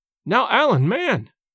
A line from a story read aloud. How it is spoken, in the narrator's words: cried James